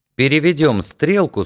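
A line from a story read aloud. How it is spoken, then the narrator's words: Plain. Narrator (Russian): сказал он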